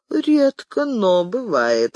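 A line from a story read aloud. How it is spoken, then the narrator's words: Chuckle over phone. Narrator (Russian): хохотнули в трубке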